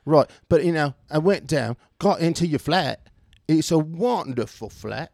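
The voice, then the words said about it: Put-on British accent. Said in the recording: “You're British from here on out.”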